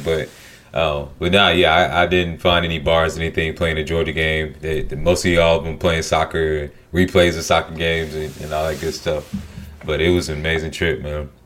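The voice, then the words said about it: Southern American accent. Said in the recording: “they couldn't understand my Southern accent”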